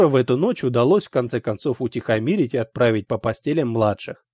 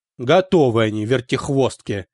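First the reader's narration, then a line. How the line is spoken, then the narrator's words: Grumbled. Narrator (Russian): проворчал папа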